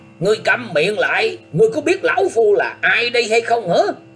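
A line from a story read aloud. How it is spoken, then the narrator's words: Interrupting, loud shout. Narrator (Vietnamese): Quái nhân ấy không để cho chàng thiếu niên áo xanh dứt lời, liền quát to lên rằng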